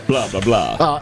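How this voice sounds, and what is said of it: Dracula character voice. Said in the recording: “doing a single Dracula voice”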